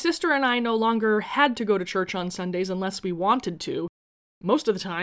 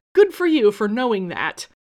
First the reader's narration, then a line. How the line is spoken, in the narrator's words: laughed joyfully and responded